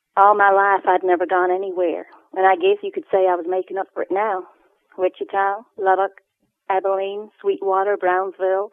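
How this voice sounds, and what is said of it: Texan accent reading in character. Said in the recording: “read it in character ... I can't read a Texan voice in a Glaswegian accent.”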